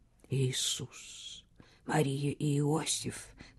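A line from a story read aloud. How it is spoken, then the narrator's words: Whispering. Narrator (Russian): прошептал Хьюго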